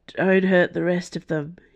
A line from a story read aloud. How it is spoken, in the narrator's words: he slurred